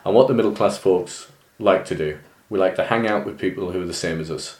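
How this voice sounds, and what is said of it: County Durham English accent. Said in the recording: “I might not sound it, I've got County Durham accent”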